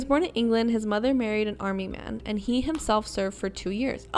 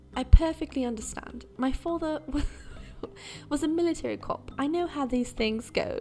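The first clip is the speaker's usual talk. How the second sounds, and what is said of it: Bad put-on English accent. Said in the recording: “That was like so bad. I'm sorry. I have to talk like that. Now that I know he's from England and he has an accent”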